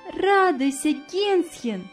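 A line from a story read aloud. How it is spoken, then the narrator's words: Cheerful. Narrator (Russian): весело сказала она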